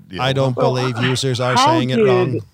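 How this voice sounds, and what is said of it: Robotic imitation of another person's voice. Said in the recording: “Can you say that more robotic? ... That was my Zuckerberg impression.”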